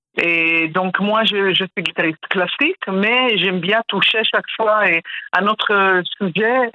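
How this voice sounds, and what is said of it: Pleasant foreign accent in French. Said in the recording (French): “un très bel accent”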